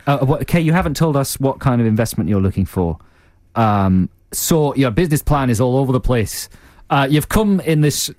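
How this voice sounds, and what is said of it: Drifting Yorkshire accent. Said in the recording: “what accent is that? It went to Yorkshire or somewhere.”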